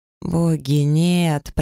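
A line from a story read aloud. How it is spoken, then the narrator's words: Stifled moan. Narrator (Russian): простонала я и закусила губу, чтобы не закричать в голос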